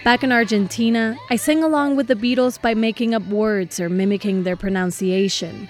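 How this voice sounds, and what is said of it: Argentine-accented English. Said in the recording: “Maybe you can hear my accent.”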